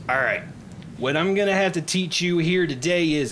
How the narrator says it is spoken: she's yelling at the top of her lungs, even though you're less than 5 feet away from her

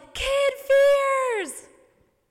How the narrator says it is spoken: she yells

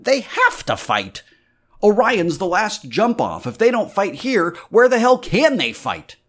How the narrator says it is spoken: Rossi swore savagely

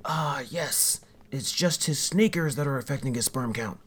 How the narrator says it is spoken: I grumble

